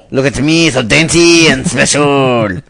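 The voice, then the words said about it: Mock exaggerated French accent. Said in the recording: “the most Frenchiest French accent ... they give the harshest accent when mocking it”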